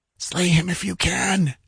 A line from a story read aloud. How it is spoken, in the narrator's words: she panted